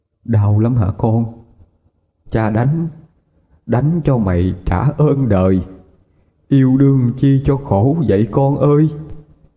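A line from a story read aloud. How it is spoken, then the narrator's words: Trembling voice. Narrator (Vietnamese): Giọng ông run run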